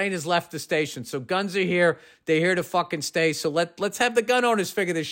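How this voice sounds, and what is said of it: Usual voice. Nothing is said of it.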